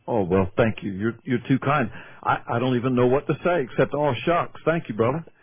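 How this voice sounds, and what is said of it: Southern US accent. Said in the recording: “he's from the South... My accent gives that away”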